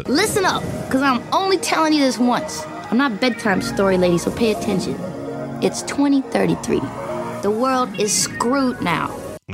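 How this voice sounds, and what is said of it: West Coast Compton accent. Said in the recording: “Compton in there ... Maybe a little Compton ... It's very West Coast. Her accent.”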